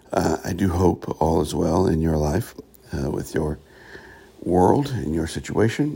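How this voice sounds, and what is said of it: Slightly raspy voice. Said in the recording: “I'm a little raspy this morning”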